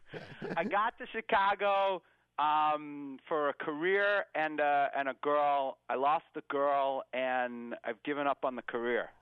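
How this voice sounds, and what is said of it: Massachusetts accent. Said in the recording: “formerly of East Arlington, Massachusetts ... We can tell by your accent”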